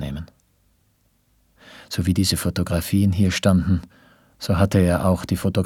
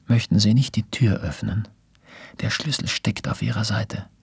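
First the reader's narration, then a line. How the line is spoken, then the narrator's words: Quick quiet reply. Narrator (German): Sofort und ebenso leise kam die Antwort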